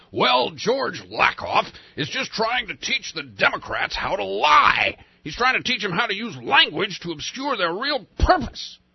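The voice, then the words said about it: Imitates another person's voice. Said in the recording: “That was a pretty poor Rush impersonation.”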